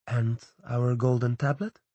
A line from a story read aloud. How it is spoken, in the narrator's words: Anna asked gently